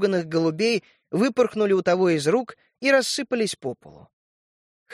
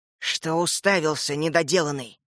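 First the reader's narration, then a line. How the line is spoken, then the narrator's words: Hissing. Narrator (Russian): прошипел клерк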